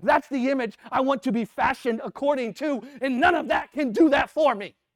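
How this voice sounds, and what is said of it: Yelling loudly. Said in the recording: “I know I'm yelling”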